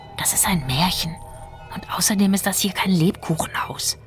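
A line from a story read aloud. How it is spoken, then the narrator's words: Whispered. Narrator (German): flüsterte Fjolla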